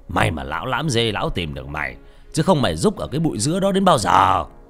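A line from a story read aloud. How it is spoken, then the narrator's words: Snapping irritably. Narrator (Vietnamese): Ông gắt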